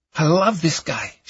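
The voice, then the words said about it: Eastern European accent. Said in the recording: “She had an Eastern European accent.”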